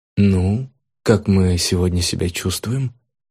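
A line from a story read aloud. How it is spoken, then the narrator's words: Caring doctor's inquiry. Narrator (Russian): Заботливым тоном осведомился доктор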